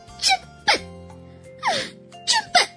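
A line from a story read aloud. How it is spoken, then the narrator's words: Angry repeated cries. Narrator (Chinese): 小松鼠气得 连声叫着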